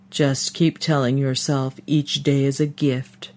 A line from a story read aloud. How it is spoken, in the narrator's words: Sister Angela's rumbly voice intoned from behind